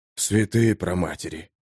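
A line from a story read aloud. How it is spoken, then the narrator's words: Breathless exclamation. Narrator (Russian): выдохнул кто-то рядом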